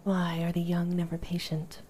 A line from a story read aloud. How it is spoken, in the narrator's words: Kratos sighed